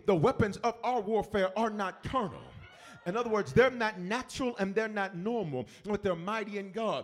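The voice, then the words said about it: Shouting preaching voice. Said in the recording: “I'm shouting ... my shout”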